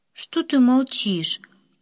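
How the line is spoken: Tired. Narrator (Russian): Как-то устало спросила она

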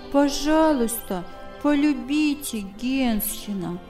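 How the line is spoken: Child's gentle pleading. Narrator (Russian): Ласково просил малыш

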